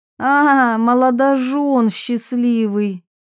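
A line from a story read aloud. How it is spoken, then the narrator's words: Loud. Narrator (Russian): Варвара говорила громко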